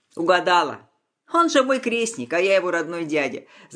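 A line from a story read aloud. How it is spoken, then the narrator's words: Laughing. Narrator (Russian): засмеялся Егор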